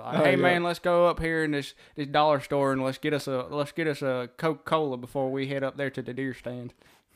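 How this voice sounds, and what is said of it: Mocking put-on Southern accent. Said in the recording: “I can do the mockery southern accent.”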